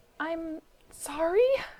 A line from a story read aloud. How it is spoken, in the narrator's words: he wheezed